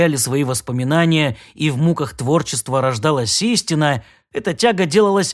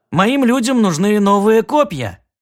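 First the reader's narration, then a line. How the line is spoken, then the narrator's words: Cheerful smiling explanation. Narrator (Russian): объяснил Шалопай, продолжая радостно улыбаться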